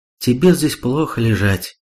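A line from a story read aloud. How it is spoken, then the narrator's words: Sigh. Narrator (Russian): вздохнула Сато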